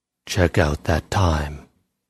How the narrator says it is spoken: He paused and said in a low voice

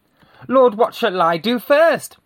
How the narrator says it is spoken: cried

